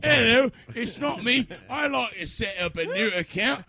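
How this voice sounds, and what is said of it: Bad Dick Van Dyke-style London accent. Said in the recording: “You have the shittiest Dick Van Dyke London fucking accent.”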